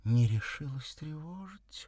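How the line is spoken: Thin plaintive little voice. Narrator (Russian): необычно тоненьким голоском жалобно сказала она

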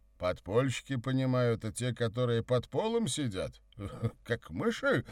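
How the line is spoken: Feigned naive laugh. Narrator (Russian): сделанным простодушием рассмеялся Савва

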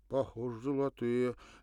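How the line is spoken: Hesitant, plaintive young mutter. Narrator (Russian): Нерешительно, почти жалобно пробормотал молодой солдат

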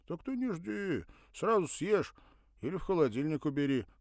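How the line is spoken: Amused snort. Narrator (Russian): хмыкнул

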